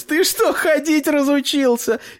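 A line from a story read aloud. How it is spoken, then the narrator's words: Laughing. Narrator (Russian): Лиза засмеялась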